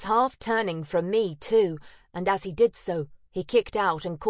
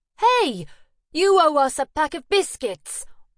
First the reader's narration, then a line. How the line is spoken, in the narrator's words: I blurted out